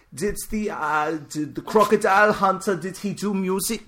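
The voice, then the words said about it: Attempted Swedish accent. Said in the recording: “I'm going to try... Like, I don't know the Swedish accent”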